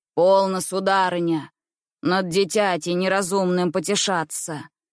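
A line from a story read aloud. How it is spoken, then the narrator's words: Stern. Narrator (Russian): произнес он строго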